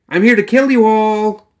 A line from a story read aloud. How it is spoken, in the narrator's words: She shouted